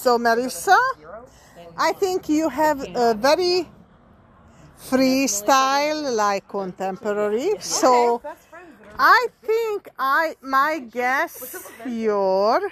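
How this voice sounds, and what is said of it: Heavy Hungarian accent. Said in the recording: “I am Hungarian and I have a heavy Hungarian accent.”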